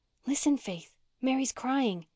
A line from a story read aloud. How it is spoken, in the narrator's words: she whispered